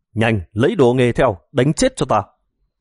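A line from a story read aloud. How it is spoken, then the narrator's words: Loud yell. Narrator (Vietnamese): Một tên khác gào lên thật to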